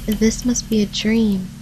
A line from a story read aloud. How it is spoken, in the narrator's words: breathed softly